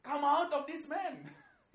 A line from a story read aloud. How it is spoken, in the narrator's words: He shouts basically to the demons